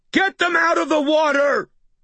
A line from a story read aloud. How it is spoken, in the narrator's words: I screamed